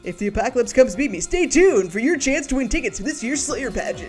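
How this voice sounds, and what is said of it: Radio announcer voice. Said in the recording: “put on my radio announcer voice.”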